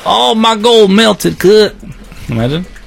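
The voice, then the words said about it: Put-on accent. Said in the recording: “What was that accent for?”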